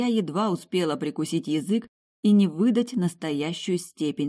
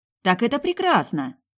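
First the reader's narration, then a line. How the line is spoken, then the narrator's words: Enthusiastic, joyful, smiling. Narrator (Russian): воодушевленно заявила я, радостно улыбаясь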